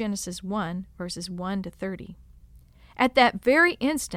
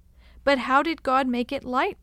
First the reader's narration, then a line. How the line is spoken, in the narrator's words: they eagerly questioned